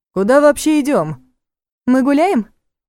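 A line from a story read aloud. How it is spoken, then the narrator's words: Cheerful reply. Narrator (Russian): Весело отозвалась та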